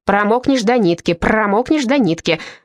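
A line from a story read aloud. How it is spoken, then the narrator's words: Barked. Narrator (Russian): рявкнул Казанова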